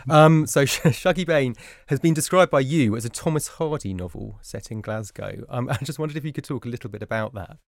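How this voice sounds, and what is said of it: Flat London accent. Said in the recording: “my sort of flat London brogue”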